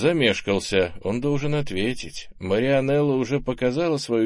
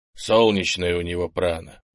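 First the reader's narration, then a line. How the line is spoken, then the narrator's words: Grumbled. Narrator (Russian): проворчал Крис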